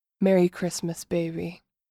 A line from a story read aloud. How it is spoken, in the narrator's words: I whisper against her lips